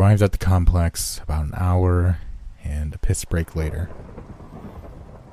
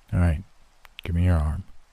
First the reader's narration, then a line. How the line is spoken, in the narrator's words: mumbled